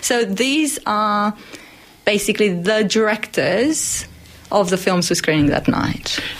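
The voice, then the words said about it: Speaker with a non-Australian accent. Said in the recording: “It's just a coincidence that I have an accent.”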